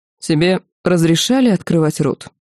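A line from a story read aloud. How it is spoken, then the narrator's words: Cold question from man. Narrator (Russian): Холодно поинтересовался неизвестный, но явно уважаемый здесь мужчина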